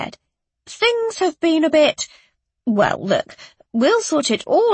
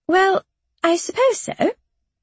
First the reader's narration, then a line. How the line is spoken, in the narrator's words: Miss Platt replied tightly